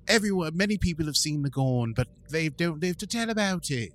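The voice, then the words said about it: Poor put-on British accent. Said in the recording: “your British accent is about as good as my wife's... She sounds like Dick Van Dyke”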